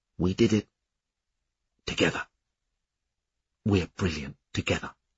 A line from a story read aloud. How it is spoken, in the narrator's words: whispering